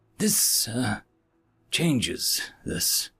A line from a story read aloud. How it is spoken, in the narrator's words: he said grimly